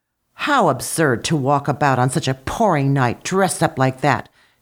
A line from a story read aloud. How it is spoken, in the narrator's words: she remarked crossly